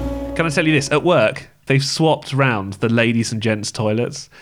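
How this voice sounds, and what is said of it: Usual voice. Nothing is said of it.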